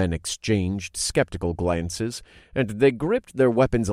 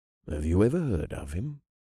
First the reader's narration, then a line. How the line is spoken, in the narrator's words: one guard muttered